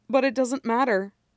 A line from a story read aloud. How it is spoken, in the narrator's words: Peter says